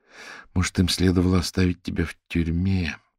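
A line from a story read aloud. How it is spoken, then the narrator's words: Muttering under breath. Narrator (Russian): пробормотала Вера себе под нос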